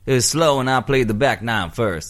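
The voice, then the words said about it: Put-on Southern US accent. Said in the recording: “is this Southern accent? ... Yep. ... Well, he's not quite like that. He'd be more like a Texan. ... He's definitely South.”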